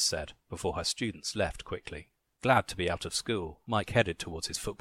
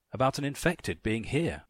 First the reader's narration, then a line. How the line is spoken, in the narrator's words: Ethan said